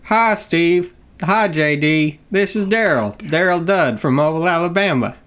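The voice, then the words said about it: Imitates another person's voice. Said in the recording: “You're doing Chris Harris. ... that voice”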